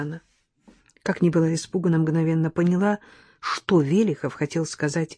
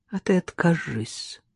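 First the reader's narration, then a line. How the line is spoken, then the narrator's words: Calm. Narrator (Russian): спокойно проговорил Велихов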